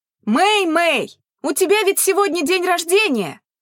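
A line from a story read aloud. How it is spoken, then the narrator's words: Distant shout. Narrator (Russian): крикнула Ли Сюэ с внутреннего двора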